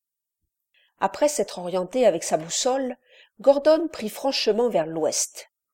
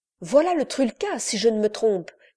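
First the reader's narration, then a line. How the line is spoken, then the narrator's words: Exclaiming. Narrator (French): s'écria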